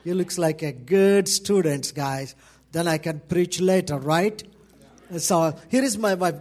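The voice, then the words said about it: Indian English accent. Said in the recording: “my Indian English”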